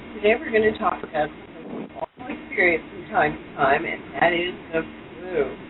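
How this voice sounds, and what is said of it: Slightly congested voice from a cold. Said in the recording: “I have a little bit of a cold today, so if you hear that in my voice”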